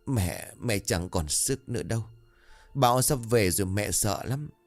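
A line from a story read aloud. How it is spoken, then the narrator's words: Trembling, tearful old woman. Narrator (Vietnamese): Bà cụ Hầu run rẩy nước mắt ứa ra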